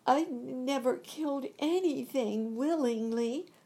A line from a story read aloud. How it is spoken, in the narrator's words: she sobbed